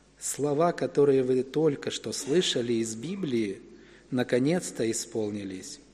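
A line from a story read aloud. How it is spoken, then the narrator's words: Very quiet. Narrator (Russian): Иисус тихо-тихо сказал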